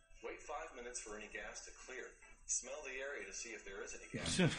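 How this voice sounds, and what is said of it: Canadian accent. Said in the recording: “He sounds like he's in fucking Australia ... what accent is that? ... Canadian ... That's the stupidest fucking accent”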